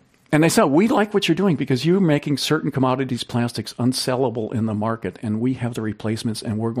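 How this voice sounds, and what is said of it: Usual voice. Nothing is said of it.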